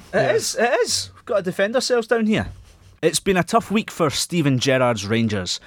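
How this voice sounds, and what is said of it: Scottish accent. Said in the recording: “It is quite an aggressive accent sometimes ... in a very Scottish accent ... it sounds quite aggressive”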